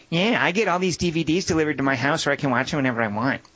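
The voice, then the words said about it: Imitates another person's voice. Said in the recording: “a great impersonation.”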